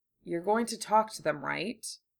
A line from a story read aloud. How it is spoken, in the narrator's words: He said quietly